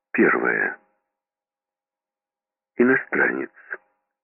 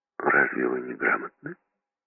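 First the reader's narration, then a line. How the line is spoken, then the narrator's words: Calm inquiry. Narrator (Russian): Спокойно осведомился он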